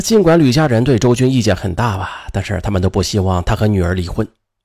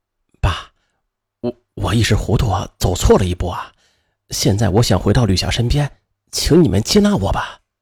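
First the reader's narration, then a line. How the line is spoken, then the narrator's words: Low, pitiful voice. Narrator (Chinese): 周军放低声音，可怜兮兮地说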